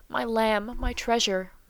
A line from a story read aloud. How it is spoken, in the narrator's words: murmured the loving though rugged sire